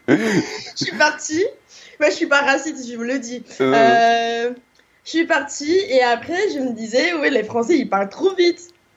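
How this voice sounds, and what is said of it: African accent in French. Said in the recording (French): “j'ai un accent africain”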